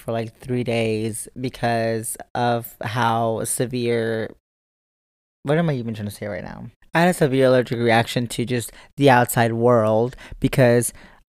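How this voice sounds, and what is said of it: Hoarse, recovering voice. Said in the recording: “you can hear from my voice, I'm still trying to recover. I lost my voice”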